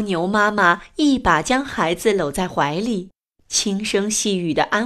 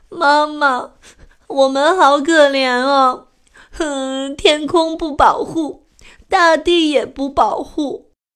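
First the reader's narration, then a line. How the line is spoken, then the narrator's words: Sad crying child. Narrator (Chinese): 小蜗牛伤心的哭了起来，说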